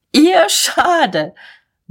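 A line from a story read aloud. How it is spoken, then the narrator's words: Wild laughter. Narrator (German): Mahlmann lachte tobend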